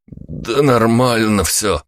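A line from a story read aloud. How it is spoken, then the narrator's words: Groaning. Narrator (Russian): Простонал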